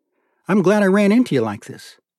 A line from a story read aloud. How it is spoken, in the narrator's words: he said genuinely